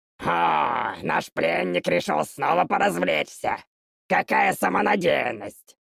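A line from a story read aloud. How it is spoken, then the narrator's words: Hissed. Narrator (Russian): Прошипел один из импов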